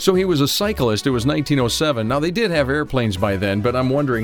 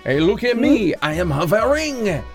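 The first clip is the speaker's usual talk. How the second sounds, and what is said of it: Terrible put-on French accent. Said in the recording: “Our listeners in France right now are going, oh, this is a terrible accent you have.”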